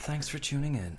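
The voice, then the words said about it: Softly spoken Irish voice. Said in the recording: “when you did the softly spoken ... Irish”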